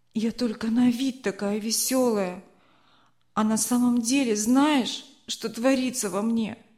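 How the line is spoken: Trembling muffled moan. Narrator (Russian): Голос Марины дрогнул, и она, закрыв лицо руками, простонала

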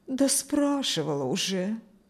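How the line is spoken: Sighing. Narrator (Russian): вздохнула свекровь

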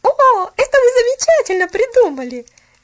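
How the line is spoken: Cheerful, sensible exclamation. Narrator (Russian): Весело, но рассудительно воскликнула Поллианна

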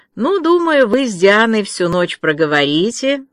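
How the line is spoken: Mocking remark. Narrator (Russian): насмешливо заметила Марила

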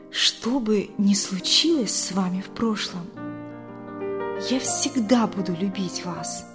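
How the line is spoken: Whisper. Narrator (Russian): она прошептала

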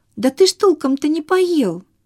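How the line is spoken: Shouting after someone. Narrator (Russian): кричала бабушка вдогонку

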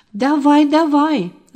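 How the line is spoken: Yelling. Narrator (Russian): завопил Толик

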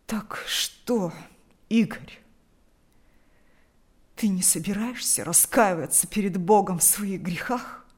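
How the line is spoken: Hoarse with emotion. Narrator (Russian): От волнения голос отца хрипел

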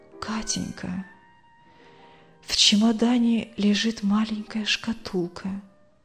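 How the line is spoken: Dying woman's faint whisper. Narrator (Russian): больная едва слышно прошептала

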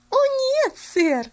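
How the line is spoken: Cheerful laughing. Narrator (Russian): весело засмеялась Пуляна

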